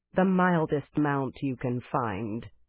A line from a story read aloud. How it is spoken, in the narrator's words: she said in a flat voice